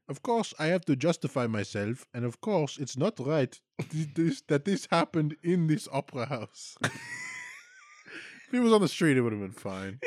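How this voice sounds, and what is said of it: Put-on German accent. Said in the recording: “Should I do this in the German accent, too?”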